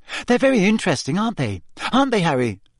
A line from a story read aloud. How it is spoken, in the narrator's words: Hermione, who seemed to be thinking along these lines, said quickly